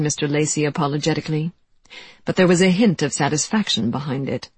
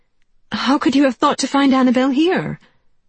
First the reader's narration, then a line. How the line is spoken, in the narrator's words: Janie blurted out